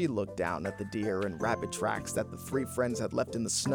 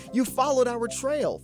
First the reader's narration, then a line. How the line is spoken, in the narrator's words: Feline cried